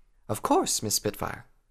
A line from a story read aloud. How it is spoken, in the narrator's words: the guide chuckled lightly